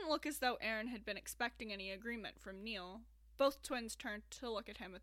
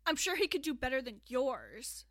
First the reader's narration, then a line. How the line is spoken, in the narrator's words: Aaron snarled